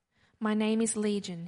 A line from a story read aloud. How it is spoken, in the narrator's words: he replied